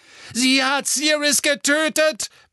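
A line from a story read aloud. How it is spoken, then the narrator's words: Roar. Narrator (German): brüllte Harry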